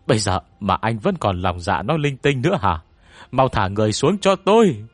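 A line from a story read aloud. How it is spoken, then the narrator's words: Loud shout. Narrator (Vietnamese): Cao Tư Dương liền hét lớn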